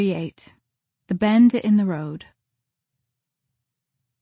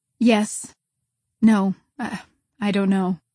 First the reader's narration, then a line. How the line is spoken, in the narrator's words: said Marilla wearily